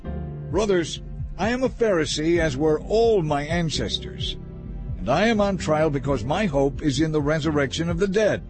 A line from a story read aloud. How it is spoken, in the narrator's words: so he shouted